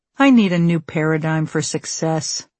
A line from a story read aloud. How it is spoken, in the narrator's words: he sighed